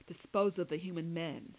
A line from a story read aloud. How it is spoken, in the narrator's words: the phony redhead growled